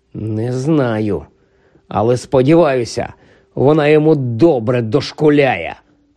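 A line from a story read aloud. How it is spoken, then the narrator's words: Furious hiss. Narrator (Ukrainian): розлючено просичав Рон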